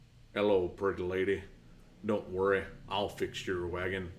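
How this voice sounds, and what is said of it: Poor imitation of another person's voice. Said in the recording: “it was a horrible impersonation”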